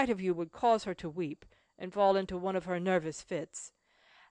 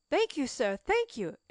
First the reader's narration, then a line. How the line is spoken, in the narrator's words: exclaimed Cecil